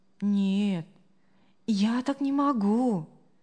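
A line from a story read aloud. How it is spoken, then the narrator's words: Calm. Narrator (Russian): спокойно ответила Мария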